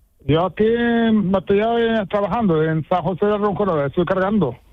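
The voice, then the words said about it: Moroccan-accented Spanish. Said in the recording (Spanish): “todavía te tienes tú el acento de tu tierra ... Que habláis marroquí en vuestra casa ... todavía tienes tú el acento ahí”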